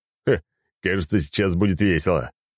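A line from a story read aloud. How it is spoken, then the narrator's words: Booming. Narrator (Russian): прогремел Арнольд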